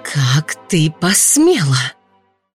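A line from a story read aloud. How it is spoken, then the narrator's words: Angry hiss. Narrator (Russian): злобным шипением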